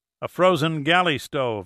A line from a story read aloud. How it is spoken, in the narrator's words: answered Pitt